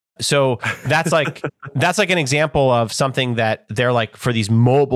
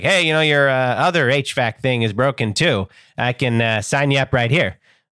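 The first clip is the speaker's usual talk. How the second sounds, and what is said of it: Funny put-on repairman voice. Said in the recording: “I don't know why they sound like that, but anyone that's working on HVAC has a funny voice in my head.”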